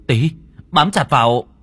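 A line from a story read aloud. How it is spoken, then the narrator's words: Shouted. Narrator (Vietnamese): Đen miệng đồng thời hét lên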